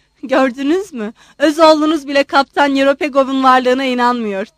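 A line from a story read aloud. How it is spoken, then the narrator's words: Shouted. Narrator (Turkish): diye bağırınca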